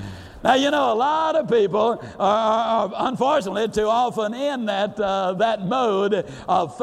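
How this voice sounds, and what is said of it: Usual voice. Nothing is said of it.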